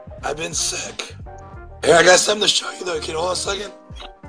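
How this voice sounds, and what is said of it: Hoarse, strained voice. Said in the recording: “my voice is shot. My voice is shot.”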